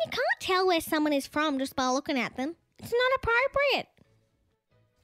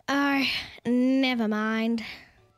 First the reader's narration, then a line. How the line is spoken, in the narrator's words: sighed Gladys